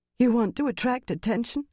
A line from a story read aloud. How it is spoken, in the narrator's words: Aleandra said hoarsely